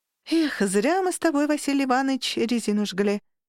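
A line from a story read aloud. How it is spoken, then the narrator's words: Sighing explanation. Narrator (Russian): Вздохнула и пояснила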